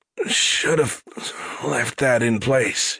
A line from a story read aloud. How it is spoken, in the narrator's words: she slurred